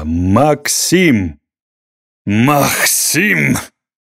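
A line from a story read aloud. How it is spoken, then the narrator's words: Barked, strange accent. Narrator (Russian): рявкнул рыжебородый со странным акцентом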